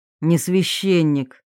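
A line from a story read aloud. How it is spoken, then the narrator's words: Dry snort. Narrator (Russian): Долматов хмыкнул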